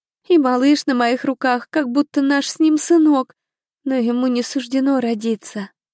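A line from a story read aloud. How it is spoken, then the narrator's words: Sobbing harder, muffled. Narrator (Russian): Еще сильнее зарыдала Николь, спрятав в ладони мокрое от слез лицо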